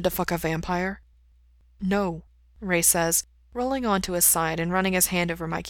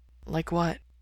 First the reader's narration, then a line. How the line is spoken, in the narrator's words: Mikey asks softly